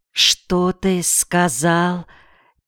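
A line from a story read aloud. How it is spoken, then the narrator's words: Quiet, near-whisper question. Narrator (Russian): тихо, почти шепотом спросила Попина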